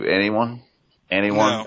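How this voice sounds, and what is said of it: Imitates another person's voice. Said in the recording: “my Ben Stein impersonation from Ferris Bueller”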